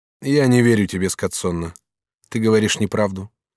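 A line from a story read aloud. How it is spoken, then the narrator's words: Calm tone. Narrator (Russian): сказал Челлини спокойным тоном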